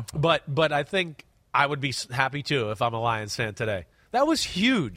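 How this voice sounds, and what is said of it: Congested, stuffy nasal voice. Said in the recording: “excuse my voice, I'm a little sniffly today. I'm a little clogged up, so I might sound a little different.”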